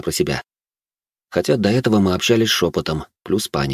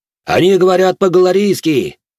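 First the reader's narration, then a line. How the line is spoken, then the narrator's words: Soldier shouting from crowd. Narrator (Russian): крикнул кто-то из толпы солдат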